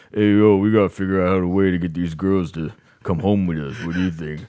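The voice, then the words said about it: Imitates another person's voice. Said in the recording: “We could have like Stallone and Cosby sitting.”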